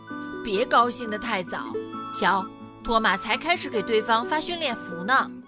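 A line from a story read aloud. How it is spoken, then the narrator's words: Cold. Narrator (Chinese): 雨果冷冷地说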